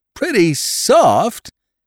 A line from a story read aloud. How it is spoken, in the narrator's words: he cried